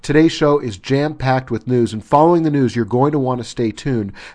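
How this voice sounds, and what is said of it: Strained, worn-out voice. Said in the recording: “my voice is a little bit shot”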